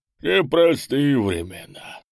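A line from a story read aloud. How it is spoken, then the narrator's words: Sighing. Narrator (Russian): вздохнул караульный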